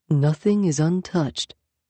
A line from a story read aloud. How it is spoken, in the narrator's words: Yaskander murmured